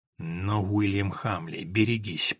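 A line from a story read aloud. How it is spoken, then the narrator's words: Words through clenched teeth. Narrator (Russian): процедил сквозь зубы Ричард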